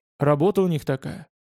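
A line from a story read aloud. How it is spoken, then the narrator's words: Plain. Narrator (Russian): ответил Писаник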